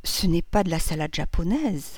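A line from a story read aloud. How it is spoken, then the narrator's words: Half-voiced, low. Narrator (French): dit-elle à mi-voix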